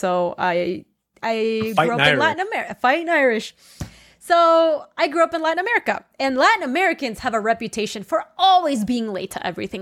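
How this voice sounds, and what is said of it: Ecuadorian Spanish-accented English. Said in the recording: “my accent ... I'm actually Ecuadorian. So I was born and raised there”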